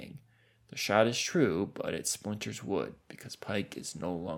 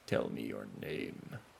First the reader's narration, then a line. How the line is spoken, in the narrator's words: rumbles